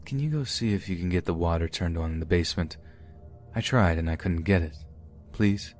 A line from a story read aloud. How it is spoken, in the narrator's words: in a very soft voice he said